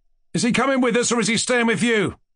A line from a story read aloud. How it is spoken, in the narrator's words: Doktorenko asked Mushkin, irritably and angrily